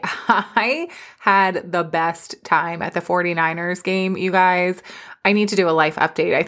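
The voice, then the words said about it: Raspy voice. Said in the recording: “my voice is so raspy.”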